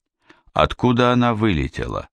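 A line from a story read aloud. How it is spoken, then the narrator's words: Plain. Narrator (Russian): спросил Сварог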